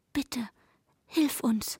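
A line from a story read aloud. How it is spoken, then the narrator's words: Whisper with chattering teeth. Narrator (German): flüsterte mit klappernden Zähnen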